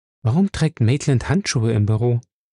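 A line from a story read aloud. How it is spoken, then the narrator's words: Plain question. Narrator (German): fragte Ella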